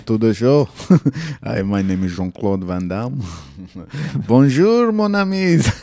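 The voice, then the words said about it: Jean-Claude Van Damme impression accent. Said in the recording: “You think I should do this whole episode in Van Damme's accent?”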